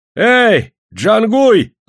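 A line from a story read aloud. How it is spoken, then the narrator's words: Yelling. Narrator (Russian): заорал он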